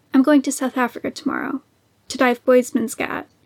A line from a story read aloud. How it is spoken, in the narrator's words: he said